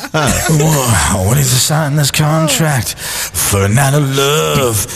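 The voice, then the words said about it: Put-on sexy seductive voice. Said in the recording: “That's sexy voice ... sexy voice.”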